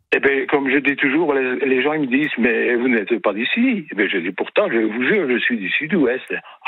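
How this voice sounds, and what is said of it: Slight Belgian French accent. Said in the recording (French): “j'avais un petit accent qui n'était pas, pas tout à fait du sud-ouest de France ... vous auriez pu avoir un peu l'accent du sud-ouest alors quand même”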